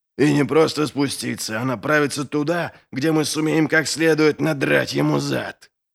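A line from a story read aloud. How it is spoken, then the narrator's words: Hissing. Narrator (Russian): прошипел Доу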